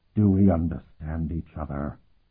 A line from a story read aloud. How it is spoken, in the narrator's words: said in a dreadful voice that hovered just this side of a whisper